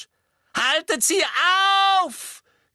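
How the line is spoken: Shrieked. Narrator (German): kreischte Umbridge

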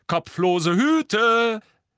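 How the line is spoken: Called out. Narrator (German): rief George

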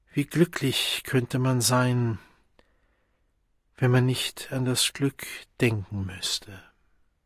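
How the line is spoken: Sighed. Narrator (German): seufzte er

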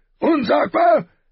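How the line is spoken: King roaring. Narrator (German): brüllte der König

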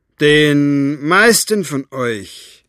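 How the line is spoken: Raised voice. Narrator (German): begann Capricorn mit erhobener Stimme

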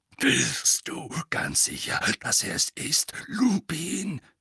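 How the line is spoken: Growl. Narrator (German): knurrte er

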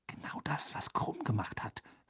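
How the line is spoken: Whispering. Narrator (German): flüsterte Hermine

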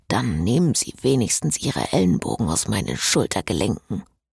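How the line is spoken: Low murmur. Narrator (German): raunte er

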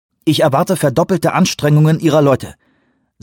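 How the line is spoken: Sharp. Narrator (German): sagte scharf

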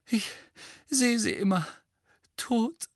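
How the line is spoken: Moaning. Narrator (German): stöhnte Mrs

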